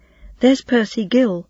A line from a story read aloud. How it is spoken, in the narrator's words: Goat had cried